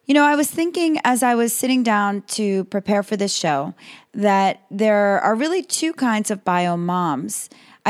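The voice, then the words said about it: Raspy, partly lost voice. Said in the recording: “excuse my voice, it's a little raspy ... I seem to have lost my voice just a little bit”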